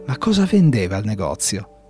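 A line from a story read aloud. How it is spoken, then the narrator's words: Trembling question. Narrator (Italian): chiese con voce tremante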